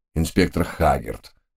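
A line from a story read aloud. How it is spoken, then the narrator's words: Somewhat glum. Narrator (Russian): несколько уныло начал представитель Скотланд-Ярда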